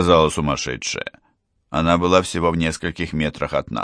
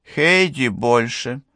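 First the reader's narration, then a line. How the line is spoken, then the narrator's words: Flat matter-of-fact tone. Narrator (Russian): сказала она бесстрастным тоном, как будто это прописная истина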